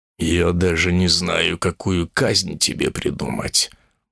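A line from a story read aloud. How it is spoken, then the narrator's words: Muttering, demon-bull. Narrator (Russian): бурчал себе под нос демон-бык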